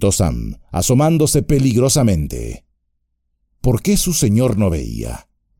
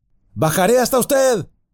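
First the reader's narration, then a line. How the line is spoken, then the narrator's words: Shout. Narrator (Spanish): gritó Sam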